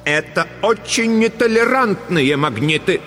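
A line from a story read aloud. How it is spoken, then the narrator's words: Clipped, emphatic. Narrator (Russian): отчеканила Дурцева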